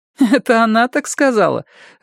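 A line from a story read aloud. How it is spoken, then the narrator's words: Laughing. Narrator (Russian): рассмеялась Сумма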